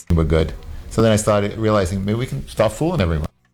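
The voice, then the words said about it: New York accent. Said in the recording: “New York accent.”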